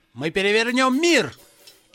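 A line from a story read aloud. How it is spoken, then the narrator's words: Shouted out. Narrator (Russian): Джон выкрикнул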